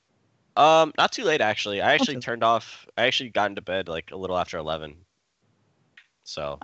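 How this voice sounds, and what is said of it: Slightly nasal, congested sick voice. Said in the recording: “I'm kind of sick right now. I'm sure you can hear it in my voice. ... I can tell you sick, but you don't sound awful. You sound a little more nasally than normal. ... I got a little bit of runny nose and gets clogged from time to time.”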